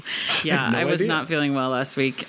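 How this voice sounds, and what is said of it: Hoarse, fading voice. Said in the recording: “I feel like I'm losing my voice.”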